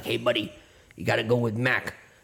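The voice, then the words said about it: Put-on New Jersey accent. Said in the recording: “it'll be like God talking with like a New Jersey accent”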